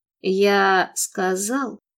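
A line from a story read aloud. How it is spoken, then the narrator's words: Mumbled. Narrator (Russian): пробормотал он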